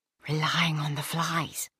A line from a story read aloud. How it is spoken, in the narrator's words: hissed Cassiel